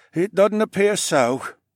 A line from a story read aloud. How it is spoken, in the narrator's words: he sighed